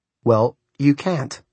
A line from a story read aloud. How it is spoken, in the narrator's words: Matt said flatly